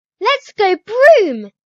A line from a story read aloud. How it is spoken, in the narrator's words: She squeals